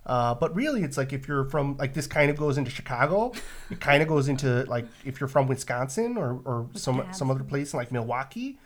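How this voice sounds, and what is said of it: Nasal northern Midwestern accent. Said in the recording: “a weird proto-Canadian accent ... it's like a nasal inflection ... kind of sounds Canadian ... Hey, you're good at that. ... that's the northern Midwestern accent.”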